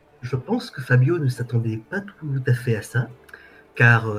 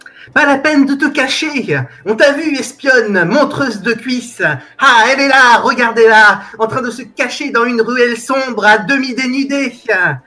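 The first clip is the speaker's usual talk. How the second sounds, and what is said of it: Shouting. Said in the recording (French): “tu cries, tu vois, quand tu cries”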